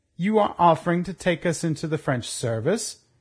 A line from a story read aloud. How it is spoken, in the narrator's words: he asked